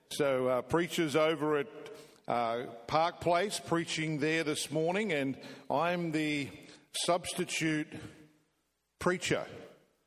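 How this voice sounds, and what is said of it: Australian accent. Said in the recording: “A little bit of a different accent for you today. ... we play cricket in Australia.”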